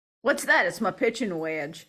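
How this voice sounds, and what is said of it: Weak attempted southern accent. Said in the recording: “was that your southern accent again? Was that what you're trying for? ... We're gonna do some accent work with you”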